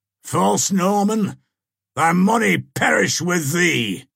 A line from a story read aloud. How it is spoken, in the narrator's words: exclaiming